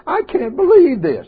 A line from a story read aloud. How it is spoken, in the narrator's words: the mother weeping cried, said